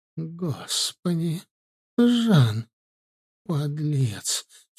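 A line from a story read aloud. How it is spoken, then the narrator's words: Barely audible. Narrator (Russian): чуть слышно произнесла она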